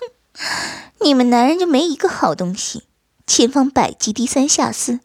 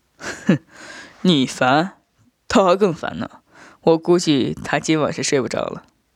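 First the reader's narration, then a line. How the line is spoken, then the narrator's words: Laughing. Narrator (Chinese): 我笑道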